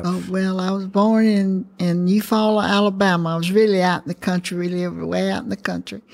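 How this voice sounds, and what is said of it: Southern US accent. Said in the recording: “that wonderful Southern accent that you have.”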